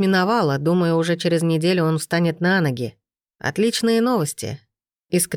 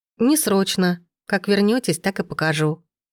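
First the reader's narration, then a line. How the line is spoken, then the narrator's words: Thoughtful young woman's reply. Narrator (Russian): задумчиво ответила девушка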